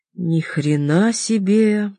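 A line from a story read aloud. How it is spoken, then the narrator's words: Drawn-out. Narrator (Russian): протянул он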